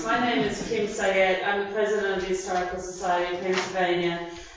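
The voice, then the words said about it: Slight Australian accent. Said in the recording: “if you detect a little bit of an Australian accent there, you're right, I'm not from New Jersey”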